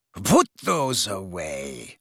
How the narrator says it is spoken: she said coldly to Harry and Ron

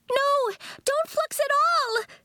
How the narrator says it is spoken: shouted

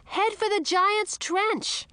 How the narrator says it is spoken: I shouted to Edric

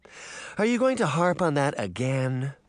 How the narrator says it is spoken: the woman sighed

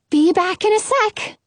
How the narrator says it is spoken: say, sounding extra chirpy

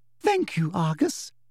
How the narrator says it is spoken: said sweetly

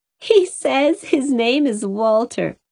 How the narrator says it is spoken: Cora giggled to Alice

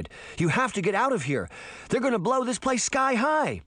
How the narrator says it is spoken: Sabrina cried

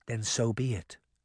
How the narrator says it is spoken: she whispered

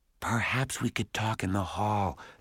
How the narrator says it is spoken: whispered

